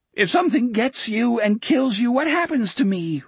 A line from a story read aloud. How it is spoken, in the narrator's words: Richard sobbed